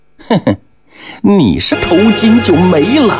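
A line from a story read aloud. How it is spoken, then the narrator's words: Sneering laugh. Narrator (Chinese): 那葛氏冷笑了一声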